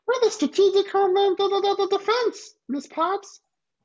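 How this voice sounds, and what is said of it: Poor Elmo-style character voice. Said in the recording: “my terrible Elmo impression”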